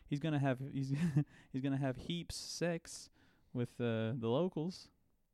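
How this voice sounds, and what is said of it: Put-on New Zealand accent. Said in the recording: “Is that a good New Zealander accent?”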